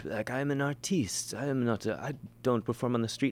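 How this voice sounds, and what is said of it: Put-on French accent. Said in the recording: “I don't know why I'm doing a French accent ... it's very good”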